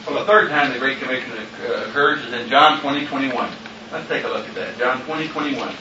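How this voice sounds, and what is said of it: Speaker's noticeable non-native accent. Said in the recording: “Accent not bothering you or anything?”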